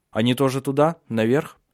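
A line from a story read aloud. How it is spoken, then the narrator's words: Plain. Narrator (Russian): спросил кучер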